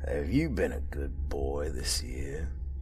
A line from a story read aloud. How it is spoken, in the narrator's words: He gave a little chuckle